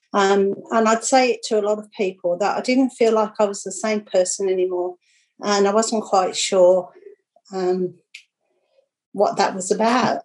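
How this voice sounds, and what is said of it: Teary, emotional voice. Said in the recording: “getting a bit teary”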